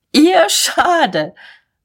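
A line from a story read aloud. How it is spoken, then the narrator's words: Raging laughter. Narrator (German): Mahlmann lachte tobend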